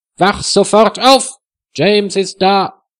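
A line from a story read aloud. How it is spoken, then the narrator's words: Very loud call. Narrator (German): Freda ruft so laut, dass Wilhelm aufwacht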